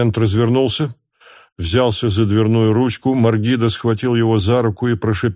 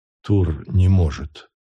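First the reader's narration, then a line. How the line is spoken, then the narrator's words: Abrupt whisper. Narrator (Russian): прошептал без предисловий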